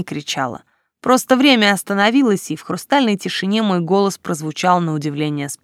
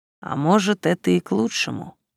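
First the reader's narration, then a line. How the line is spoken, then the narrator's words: Calm reply. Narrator (Russian): также спокойно ответил Вэйшенг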